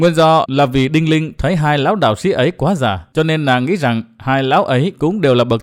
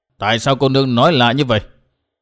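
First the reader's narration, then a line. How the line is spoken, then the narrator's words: Old man, cold question. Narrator (Vietnamese): Lão đạo sĩ bên tả lạnh lùng hỏi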